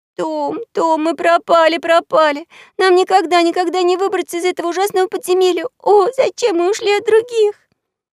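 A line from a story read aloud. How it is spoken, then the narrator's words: Frantic sobbing. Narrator (Russian): Она так безумно зарыдала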